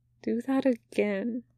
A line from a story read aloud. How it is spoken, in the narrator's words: Wei Wuxian whispers